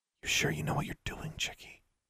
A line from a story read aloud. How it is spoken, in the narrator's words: Magnificent whispered